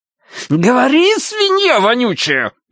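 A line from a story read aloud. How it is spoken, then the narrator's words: Shrill squeal. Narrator (Russian): взвизгнул красавчик Дима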